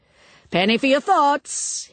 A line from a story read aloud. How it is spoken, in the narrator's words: he called out